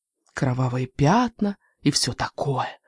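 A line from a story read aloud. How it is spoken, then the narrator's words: Dramatic whisper. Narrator (Russian): драматически прошептала Даффи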